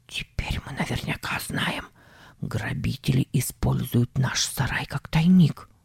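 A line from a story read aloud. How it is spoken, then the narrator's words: Whisper. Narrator (Russian): Он сказал шепотом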